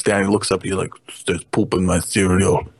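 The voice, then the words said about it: Put-on Russian accent. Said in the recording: “That's a pretty good Russian accent you got there.”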